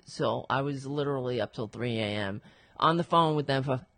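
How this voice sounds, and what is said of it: Hoarse voice. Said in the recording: “That's probably why I'm hoarse because I was talking to these guys all night”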